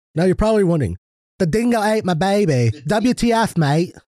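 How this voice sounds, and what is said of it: Put-on Australian accent. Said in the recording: “What kind of accent is that? It's supposed to be another shrimp on the barbie... That's not Australian. That's like fucking British... Well, there you go. That's perfect.”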